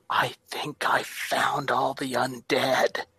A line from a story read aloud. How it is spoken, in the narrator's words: very stealthily walking wide around the pond, I'll whisper to my companions, I'll say